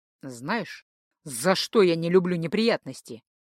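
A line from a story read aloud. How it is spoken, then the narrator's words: Mumbling. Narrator (Russian): пробормотал шеф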